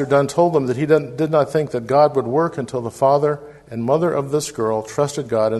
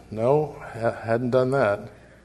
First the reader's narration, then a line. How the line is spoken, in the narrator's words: The father quietly said